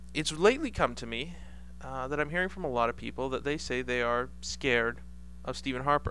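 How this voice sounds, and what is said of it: Voice with a slight cold. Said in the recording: “I have a little bit of a cold.”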